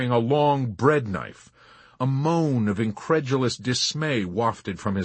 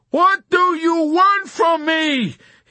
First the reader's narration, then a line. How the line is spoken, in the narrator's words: he yelled at her in a whining and exasperated confusion